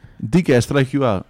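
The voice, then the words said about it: Poor put-on Spanish accent. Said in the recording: “That was a terrible Spanish accent, if that's what you were going for.”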